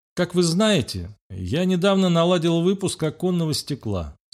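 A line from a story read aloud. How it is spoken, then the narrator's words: Calm. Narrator (Russian): спокойно начал Мальцев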